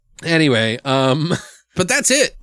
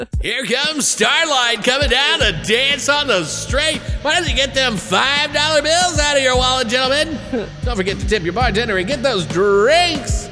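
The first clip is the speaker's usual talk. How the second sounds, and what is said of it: Exaggerated announcer DJ voice. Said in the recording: “radio voice busts out ... That's also my stripper DJ voice.”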